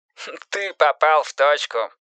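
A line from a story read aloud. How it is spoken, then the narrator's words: Laughing. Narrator (Russian): засмеялся детектив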